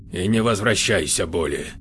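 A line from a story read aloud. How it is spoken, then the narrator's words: Grumbled. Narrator (Russian): пробурчал Космо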